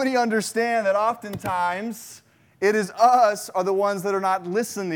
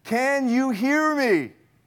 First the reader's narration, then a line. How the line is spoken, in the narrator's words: in a loud voice says